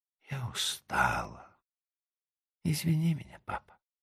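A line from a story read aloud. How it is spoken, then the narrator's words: Whispering. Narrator (Russian): тихо закрывает глаза и шепчет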